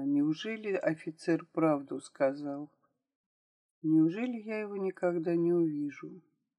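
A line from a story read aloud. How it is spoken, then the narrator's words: Quiet crying. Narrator (Russian): Вера вдруг тихонько заплакала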